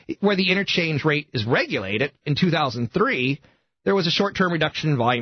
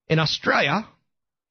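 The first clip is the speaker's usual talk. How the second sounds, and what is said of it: Bad put-on Australian accent. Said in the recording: “that's my worst Australian accent ever”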